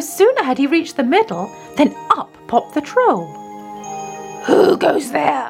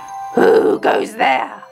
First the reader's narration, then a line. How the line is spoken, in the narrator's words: roared the troll